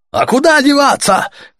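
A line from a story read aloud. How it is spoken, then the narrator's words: Shouted. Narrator (Russian): крикнули ему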